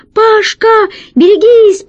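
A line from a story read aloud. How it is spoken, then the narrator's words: Squeaky voice. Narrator (Russian): пропищала она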